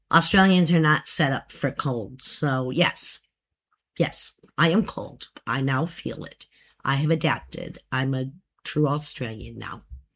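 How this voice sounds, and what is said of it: Non-Australian accent. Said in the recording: “Except for the accent. ... There's some things that never leave, you know. ... My accent, hey, you know, 27 years.”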